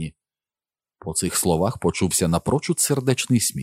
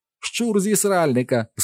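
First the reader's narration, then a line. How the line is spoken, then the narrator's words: Cried out. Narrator (Ukrainian): скрикнув Нік з сяйливими очима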